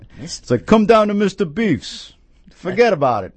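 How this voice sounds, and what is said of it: Put-on New York accent. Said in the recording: “That's a New York accent.”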